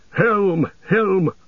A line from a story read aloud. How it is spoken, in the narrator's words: the rider shouted